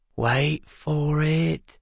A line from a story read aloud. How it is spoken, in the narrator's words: Newell said softly